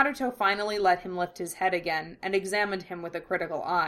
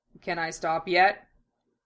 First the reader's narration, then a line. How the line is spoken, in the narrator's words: He was starting to feel a bit lightheaded, and asked dryly